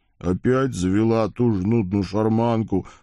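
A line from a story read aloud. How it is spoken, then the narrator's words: Grumbling. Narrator (Russian): проворчал бедный кузнец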